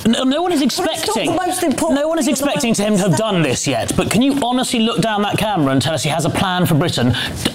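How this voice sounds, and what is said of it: Plummy upper-class English accent. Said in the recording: “We can tell that from your plummy accent.”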